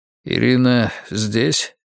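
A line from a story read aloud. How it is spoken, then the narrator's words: Quiet question. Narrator (Russian): негромко спросил Антон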